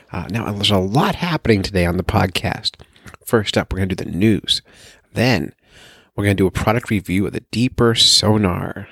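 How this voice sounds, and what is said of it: Whispering. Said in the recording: “you might hear me whispering because I'm recording this at like 3 in the morning ... I don't want to wake up my house ... the ASMR version”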